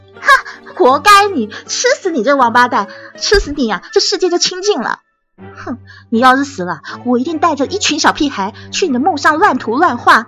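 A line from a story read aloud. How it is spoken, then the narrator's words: Laughing loudly. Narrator (Chinese): 董东东哈哈大笑起来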